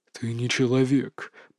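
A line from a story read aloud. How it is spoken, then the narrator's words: Whisper. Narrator (Russian): прошептал он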